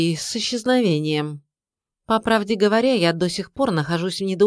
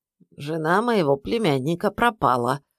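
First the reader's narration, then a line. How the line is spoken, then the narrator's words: Calm answer. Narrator (Russian): ответил спокойно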